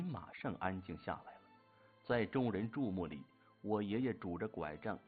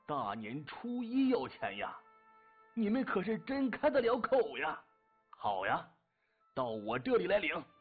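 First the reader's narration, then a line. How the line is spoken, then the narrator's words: Sudden furious roar. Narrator (Chinese): 忽然有个声音暴喝一声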